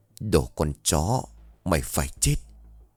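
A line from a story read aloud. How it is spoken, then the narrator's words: Panting mutter. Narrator (Vietnamese): À thở dốc miệng lầm bầm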